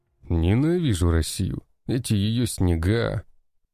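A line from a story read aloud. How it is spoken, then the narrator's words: Grumbling in foreign language. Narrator (Russian): На незнакомом в этих землях языке ворчал один из бойцов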